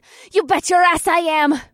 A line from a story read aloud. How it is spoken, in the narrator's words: Morgana panted as we moved faster and faster